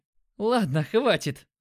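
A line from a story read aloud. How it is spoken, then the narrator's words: Laughing. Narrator (Russian): засмеялся он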